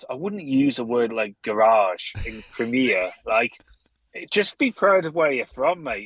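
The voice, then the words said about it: Rural Middle England accent. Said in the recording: “you can tell by my accent, I'm still pretty much middle of England, rural Worcestershire. I've got a strange dialect.”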